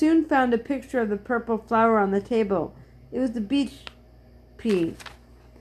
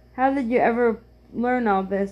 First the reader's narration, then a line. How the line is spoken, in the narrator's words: asked Joe